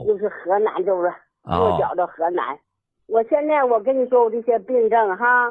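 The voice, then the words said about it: Shenyang northeastern Chinese accent. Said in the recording (Chinese): “口音不像河南人呐...我是沈阳苏家屯的...怪不得这口音不像”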